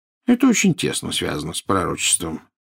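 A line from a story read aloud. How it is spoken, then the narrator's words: Casual, offhand tone. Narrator (Russian): сказал Дамблдор будничным тоном, словно речь шла о погоде на завтра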